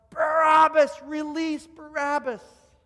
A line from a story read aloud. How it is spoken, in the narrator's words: all of a sudden yell out